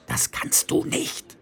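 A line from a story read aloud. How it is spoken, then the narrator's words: Hissing. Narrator (German): zischte Feucht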